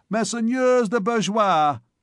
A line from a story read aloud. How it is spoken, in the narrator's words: he cried at the top of his lungs to the crowd